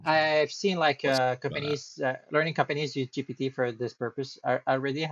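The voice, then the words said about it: Thick French accent. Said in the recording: “I still have like such a thick French accent.”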